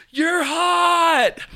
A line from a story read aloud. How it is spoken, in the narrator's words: another girl yells out